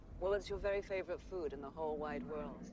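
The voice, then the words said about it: Odd, unidentifiable accent. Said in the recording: “What the chocolate. Fuck kind of accent is that?”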